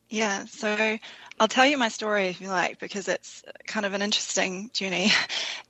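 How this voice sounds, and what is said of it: New Zealand accent. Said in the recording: “connected with us in New Zealand ... if you hear that accent, I love that”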